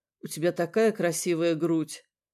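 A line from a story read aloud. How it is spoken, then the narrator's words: Mumble. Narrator (Russian): пробормотал он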